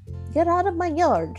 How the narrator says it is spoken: she shouted at Mercy

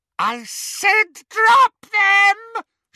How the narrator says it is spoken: she screeched

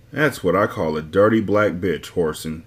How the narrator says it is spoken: muttered angrily

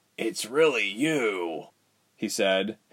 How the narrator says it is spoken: his voice croaked

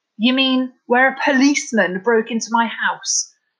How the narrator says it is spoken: Scott laughed hollowly

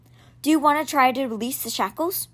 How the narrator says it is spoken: said in a low voice

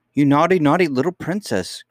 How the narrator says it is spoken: cried Ludi

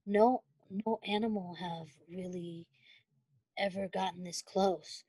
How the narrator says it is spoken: he said thoughtfully under his breath, more to himself out of habit

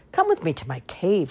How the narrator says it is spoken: Little Wolf said

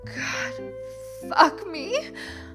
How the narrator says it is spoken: I shouted

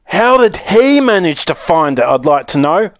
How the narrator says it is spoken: a large boy shouted angrily

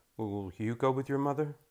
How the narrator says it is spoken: my father asks, his voice quiet

